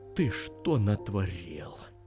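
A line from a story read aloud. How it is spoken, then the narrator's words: Director's sad question. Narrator (Russian): печально спросил режиссер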